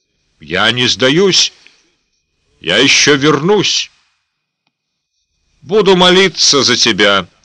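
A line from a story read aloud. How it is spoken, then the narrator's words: Triumphant shout after someone. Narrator (Russian): торжествующе прокричала Магдалина ему вдогонку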